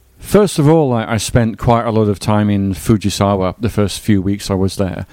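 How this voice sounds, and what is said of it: Softened English accent. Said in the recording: “the edge, I think, has been knocked off by living in Japan ... It was stronger in England ... it has really rounded off the corners ... kind of a global standard sort of, you know, fairly easy to understand accent”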